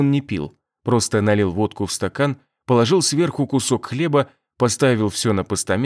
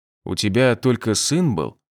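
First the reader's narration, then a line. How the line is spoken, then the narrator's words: Even-toned question. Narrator (Russian): ровным голосом спросил я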